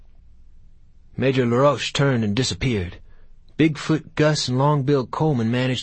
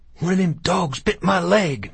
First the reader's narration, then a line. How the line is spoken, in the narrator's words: Matilda said, gasping